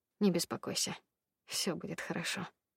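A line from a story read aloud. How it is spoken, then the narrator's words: Quiet, in ear. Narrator (Russian): негромко сказал он мне на ухо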